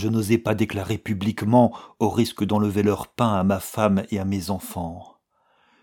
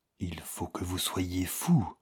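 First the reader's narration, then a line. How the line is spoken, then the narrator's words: Faint faltering murmur. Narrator (French): murmura Valentin d'une voix défaillante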